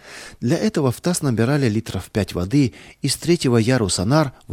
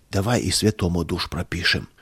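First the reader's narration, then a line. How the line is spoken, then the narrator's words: Whisper. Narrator (Russian): шепота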